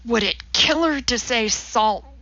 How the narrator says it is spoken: Walter hissed

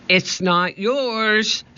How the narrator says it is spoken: shouted Annie

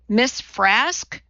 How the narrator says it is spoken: Wakely said

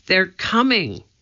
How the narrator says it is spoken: Annie cried

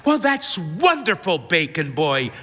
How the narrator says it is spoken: she exclaims

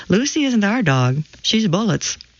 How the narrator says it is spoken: we always laughed and said

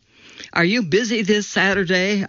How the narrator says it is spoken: asked

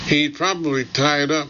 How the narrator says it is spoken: she figures, as I imagine her yawning, looking bored

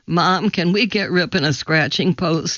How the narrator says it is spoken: he asked

